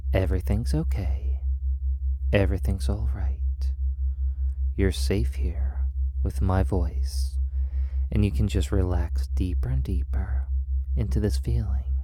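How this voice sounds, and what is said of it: Calm, soothing voice. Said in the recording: “My voice is calm and soothing”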